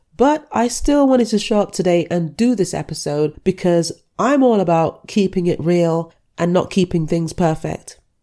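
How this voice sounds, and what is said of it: Congested, stuffy-nosed voice. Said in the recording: “you can hear that I sound congested. It is because I've managed to pick up a cold”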